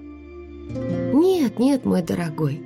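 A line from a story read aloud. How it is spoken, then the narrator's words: Cooing. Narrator (Russian): проворковала она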